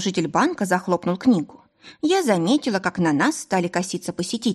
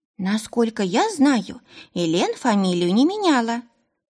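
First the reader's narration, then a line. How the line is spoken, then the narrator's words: Squeaky. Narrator (Russian): пискнул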